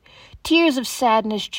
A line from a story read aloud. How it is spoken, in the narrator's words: Jesus cried